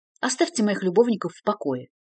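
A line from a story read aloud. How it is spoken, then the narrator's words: Mildly irritated request. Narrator (Russian): несколько раздраженно попросила Рэмика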